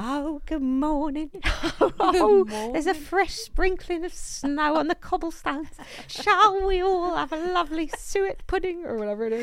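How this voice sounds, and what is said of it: Speaking in an accent. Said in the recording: “Tell us about it with your accent.”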